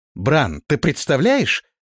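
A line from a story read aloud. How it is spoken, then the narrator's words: Excited exclamation. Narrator (Russian): воодушевленно воскликнул Карл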